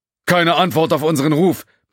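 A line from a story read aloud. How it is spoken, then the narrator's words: Shouting over noise. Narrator (German): brüllte Cat über den Lärm vom hinteren Bereich der Brücke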